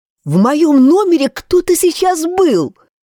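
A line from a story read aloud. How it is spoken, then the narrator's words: Nearly shouting. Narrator (Russian): почти кричала Анна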